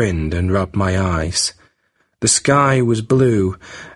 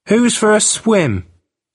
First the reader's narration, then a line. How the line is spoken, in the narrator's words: cried Peterkin